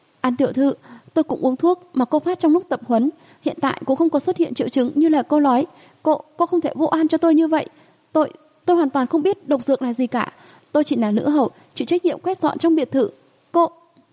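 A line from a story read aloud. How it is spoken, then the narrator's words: Frightened, hurried explanation. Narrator (Vietnamese): Nữ hầu kia dãy giụa, biểu lộ sợ hãi vội vàng giải thích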